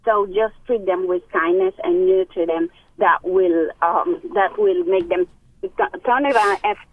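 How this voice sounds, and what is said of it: Speaks with a noticeable accent. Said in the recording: “Beautiful attitude and accent.”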